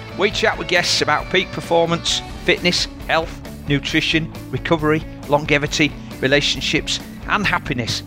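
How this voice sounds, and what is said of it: Yorkshire accent. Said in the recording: “you will always hear a Yorkshire accent.”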